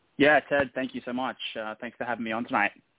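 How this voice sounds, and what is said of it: Australian accent. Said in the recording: “I can hear that Australian accent coming through loud and clear”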